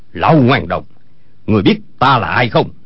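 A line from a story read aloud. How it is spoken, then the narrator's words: Shouting. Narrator (Vietnamese): Âu Dương Phong quát lên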